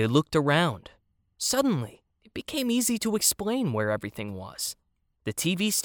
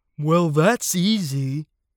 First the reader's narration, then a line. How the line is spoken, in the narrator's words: the elephant said and yawned